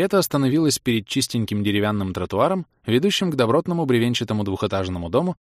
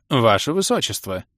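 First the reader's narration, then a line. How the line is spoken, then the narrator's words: Confident voice. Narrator (Russian): Уверенным голосом начал хозяин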